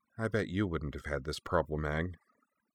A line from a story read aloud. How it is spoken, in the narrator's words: she gave up, slumping before the statue, and muttered half-heartedly